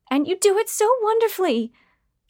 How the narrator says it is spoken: Trudy shouted in glee, although something about her speech pattern sounded forced

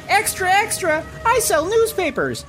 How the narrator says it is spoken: a scamp yells

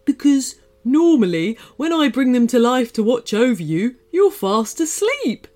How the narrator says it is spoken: chuckled Crouton

